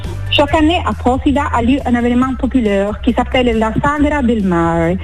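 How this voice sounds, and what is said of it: Beautiful foreign accent in French. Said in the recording (French): “ce bel accent”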